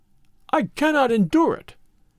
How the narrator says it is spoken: he cried

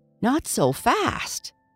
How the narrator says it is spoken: exclaimed

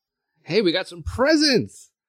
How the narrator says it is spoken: Carl said excitedly

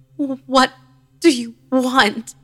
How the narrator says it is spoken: She moaned and croaked again, repeating the same noise

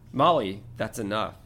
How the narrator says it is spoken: said Lupin firmly

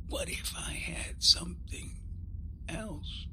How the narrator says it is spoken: he whispered

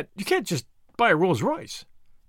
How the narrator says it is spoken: cried Tuppence

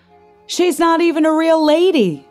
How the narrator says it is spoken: he shouted

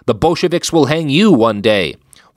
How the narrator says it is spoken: Streicher shouted

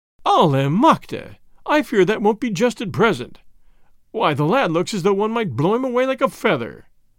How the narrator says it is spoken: added with a laugh

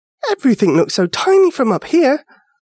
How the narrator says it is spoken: Ava gasped

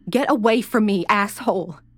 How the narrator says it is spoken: She screamed

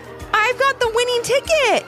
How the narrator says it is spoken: Ivy called out

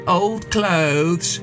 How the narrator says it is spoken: One sneered

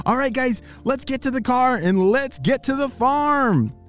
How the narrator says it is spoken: he shouted

